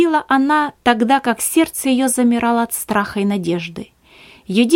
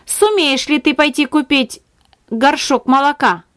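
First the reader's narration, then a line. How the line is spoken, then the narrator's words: Rude question. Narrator (Russian): Грубо спросила она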